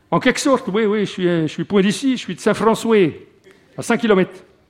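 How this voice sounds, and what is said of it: Strong Morvan regional French accent. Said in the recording (French): “Un fort accent morvandiau”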